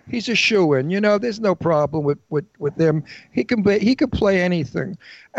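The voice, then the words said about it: Brooklyn accent. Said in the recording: “I have a Brooklyn accent... So I could hear the Brooklynese”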